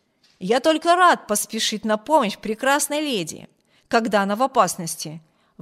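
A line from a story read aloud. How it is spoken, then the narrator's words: Exclamation. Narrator (Russian): воскликнул полковник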